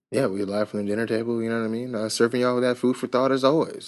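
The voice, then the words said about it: Smooth radio announcer voice. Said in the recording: “I got my radio voice on.”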